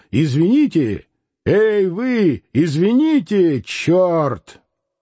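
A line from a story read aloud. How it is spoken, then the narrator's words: Piercing shout. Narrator (Russian): пронзительно крикнул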